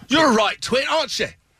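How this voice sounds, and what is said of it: Poor put-on British accent. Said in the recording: “his accent is as bad as mine ... Let's have a British accent off.”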